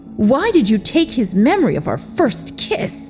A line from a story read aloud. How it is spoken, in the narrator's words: He asked angrily